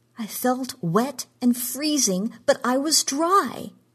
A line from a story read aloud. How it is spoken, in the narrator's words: she cried